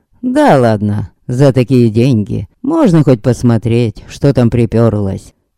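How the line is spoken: Snorting smirk. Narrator (Russian): хмыкнул Богдан

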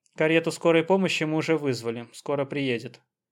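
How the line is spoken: Plain. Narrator (Russian): сказал Сахаров

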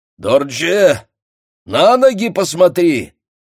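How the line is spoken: Shouted. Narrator (Russian): крикнул Баатр

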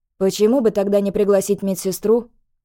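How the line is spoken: Scoffing snort. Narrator (Russian): хмыкнул Слейт

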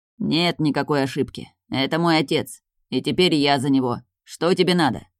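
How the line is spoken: Reluctant creaky voice. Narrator (Russian): проскрипел он нехотя

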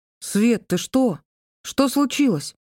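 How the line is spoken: Frightened question. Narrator (Russian): спросил он испуганно

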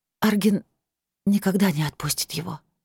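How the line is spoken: Barely audible breath. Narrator (Russian): выдохнула чуть слышно

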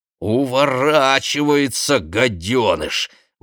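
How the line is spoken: Grumbling. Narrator (Russian): ворчала она

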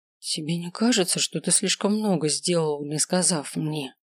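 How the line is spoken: Quiet, soft. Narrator (Russian): говорит тихо, чтобы не тревожить младенца

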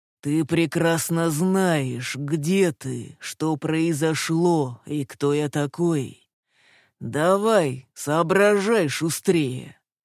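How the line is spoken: Exasperated growl. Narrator (Russian): Закатив глаза, прорычал мужчина

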